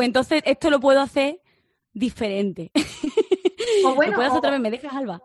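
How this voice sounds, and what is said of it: Usual voice. Nothing is said of it.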